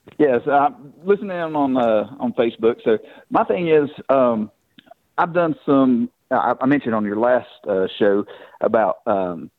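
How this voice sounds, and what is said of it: Southern American accent. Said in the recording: “that sweet Southern accent”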